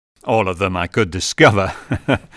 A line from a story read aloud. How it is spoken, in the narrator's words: laughed Jan